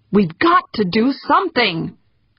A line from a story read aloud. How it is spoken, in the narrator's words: Humphreys nearly shouted